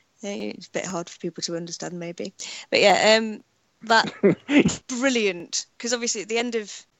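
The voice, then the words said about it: British accent. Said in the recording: “Your accent yeah. is British”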